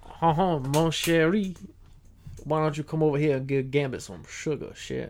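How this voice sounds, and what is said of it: Put-on Creole Cajun accent. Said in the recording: “do a Creole accent right now ... I gotta channel my inner Gambit ... I just sound like an idiot.”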